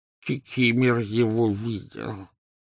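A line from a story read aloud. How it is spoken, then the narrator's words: Hoarse wheeze. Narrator (Russian): просипел эльф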